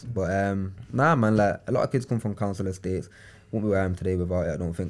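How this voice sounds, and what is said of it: Manchester accent, not well spoken. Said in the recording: “I've got an accent that's probably a bit not rolled ... It's not well spoken ... It's not Queen's English ... it's Manchester's version of”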